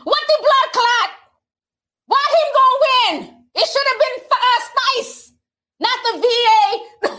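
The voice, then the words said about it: Put-on Jamaican accent. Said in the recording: “this Jamaican accent ... I can't get that accent down”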